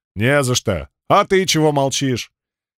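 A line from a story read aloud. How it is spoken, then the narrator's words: Thoughtful, after a snort. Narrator (Russian): Я хмыкнул, задумчиво уточнил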